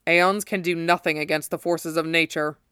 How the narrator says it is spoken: said grimly

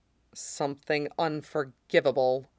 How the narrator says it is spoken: Roy mutters

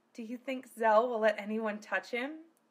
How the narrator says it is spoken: Silphiel whispered

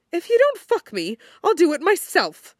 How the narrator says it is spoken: he snaps, far more articulate than he feels

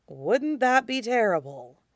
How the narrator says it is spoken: Alistair mutters

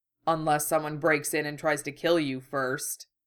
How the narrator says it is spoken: he muttered back

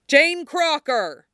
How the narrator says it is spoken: someone yells from downstairs

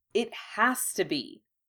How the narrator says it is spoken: Harry said crossly

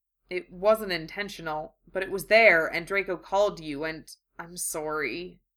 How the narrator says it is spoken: he said miserably

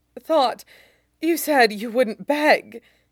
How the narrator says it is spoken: he gasps

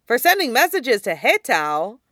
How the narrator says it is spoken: he exclaims

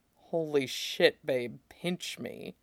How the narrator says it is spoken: he whispered

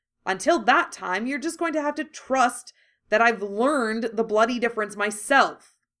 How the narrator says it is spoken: he said angrily

